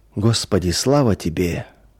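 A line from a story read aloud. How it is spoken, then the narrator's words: Quiet murmuring. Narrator (Russian): тихо приговаривал он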